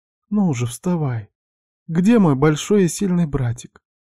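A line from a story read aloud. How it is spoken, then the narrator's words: Tender, smiling young woman. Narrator (Russian): Ласково улыбнулась девушка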